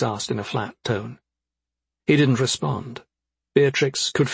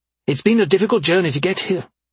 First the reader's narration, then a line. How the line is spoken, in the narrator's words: she snapped